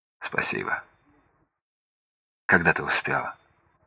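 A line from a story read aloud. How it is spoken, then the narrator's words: Quiet, grateful. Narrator (Russian): Сергей тихо, благодарно сказал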